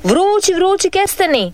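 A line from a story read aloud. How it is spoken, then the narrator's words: Old vendor calling out. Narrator (Croatian): viče stari kestenjar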